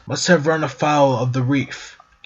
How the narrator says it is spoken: Gibbs said in a strained voice

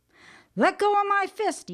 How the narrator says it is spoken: he hollers

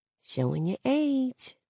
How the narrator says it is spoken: I whisper

